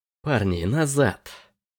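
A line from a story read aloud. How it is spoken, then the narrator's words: Hissed. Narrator (Russian): прошипела она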